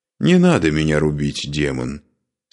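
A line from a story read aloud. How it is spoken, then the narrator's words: Calm. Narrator (Russian): спокойно произнес Парс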